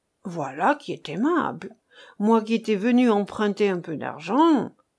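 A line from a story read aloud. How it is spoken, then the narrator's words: Grumbling. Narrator (French): grommela Bendasso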